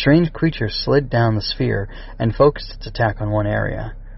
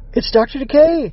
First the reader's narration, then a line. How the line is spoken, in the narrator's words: the Critterbots cried in unison